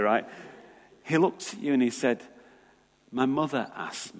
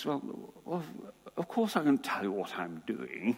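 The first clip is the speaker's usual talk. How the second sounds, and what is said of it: Prince Charles impression, posh accent. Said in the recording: “That's the farthest I go with the Prince Charles accent.”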